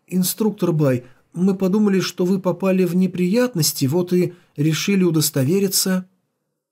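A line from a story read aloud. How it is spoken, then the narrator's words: Hesitant, disconcerted woman. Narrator (Russian): Фан Тяньмен, несколько обескураженная словами наставника, неуверенно проговорила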